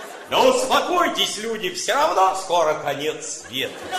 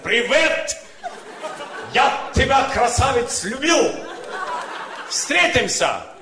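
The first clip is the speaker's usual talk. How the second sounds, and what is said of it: Put-on Caucasian accent. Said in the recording (Russian): “Кавказец так и пишет с акцентом.”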